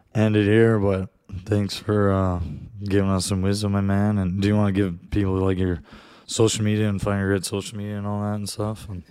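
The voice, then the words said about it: Worn-out, strained voice. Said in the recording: “my voice is dead ... the voice is dead”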